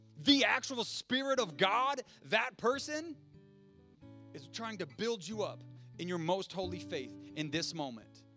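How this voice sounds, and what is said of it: Loud, excited preaching voice. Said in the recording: “my voice has been too loud. I get too excited”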